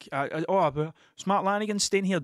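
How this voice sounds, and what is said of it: Columbo-style character voice. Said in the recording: “Doing my best Columbo impression.”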